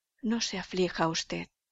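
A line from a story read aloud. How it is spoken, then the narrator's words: Affectionate, consoling tone. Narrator (Spanish): dijo en un tono afectuoso, confundiendo con un gran dolor aquel acceso de remordimiento agudo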